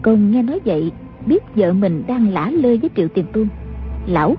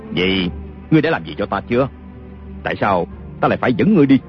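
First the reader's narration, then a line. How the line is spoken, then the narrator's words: Sneering. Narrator (Vietnamese): Kiều Phong cười khẩy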